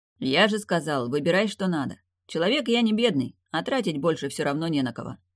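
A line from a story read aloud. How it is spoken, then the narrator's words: Calm reply. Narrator (Russian): спокойно отозвался колдун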